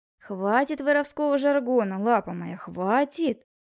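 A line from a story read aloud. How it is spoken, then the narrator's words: Mocking. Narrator (Russian): Насмешливо отреагировал Крупнов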